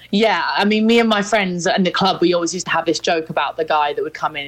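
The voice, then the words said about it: Upper-class accent. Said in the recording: “my accent as well. It's like seen as more of a kind of typically upper class accent”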